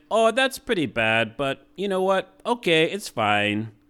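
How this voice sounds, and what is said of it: Poorly done put-on accent. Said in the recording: “I'm doing a terrible job in the accent.”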